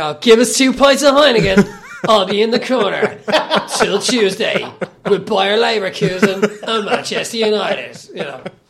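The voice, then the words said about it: Exaggerated working-class Dublin accent. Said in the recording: “a performative kind of working class accent ... that's kind of the voice I do for them”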